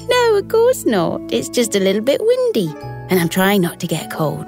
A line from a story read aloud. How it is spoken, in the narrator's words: Talia giggled and replied